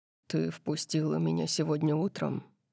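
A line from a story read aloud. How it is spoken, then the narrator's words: Quiet reminder. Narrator (Russian): напомнил он мне тихим голосом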